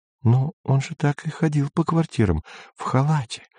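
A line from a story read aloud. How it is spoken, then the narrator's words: Whispered. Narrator (Russian): шептала Сельма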